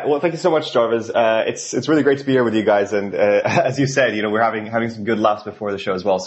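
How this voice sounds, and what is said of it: Norwegian accent. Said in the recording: “my accent... clearly I'm not from here originally... Originally from Norway”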